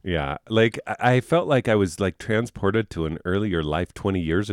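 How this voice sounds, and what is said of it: Usual voice. Nothing is said of it.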